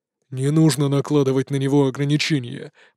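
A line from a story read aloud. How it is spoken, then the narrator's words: Deep bass voice. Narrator (Russian): пробасил командор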